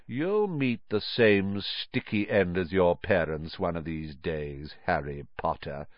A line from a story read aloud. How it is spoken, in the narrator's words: said softly